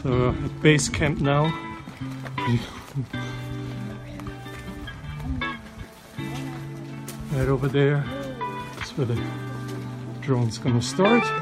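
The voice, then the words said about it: Out of breath, breathy speech. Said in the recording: “we're already out of breath”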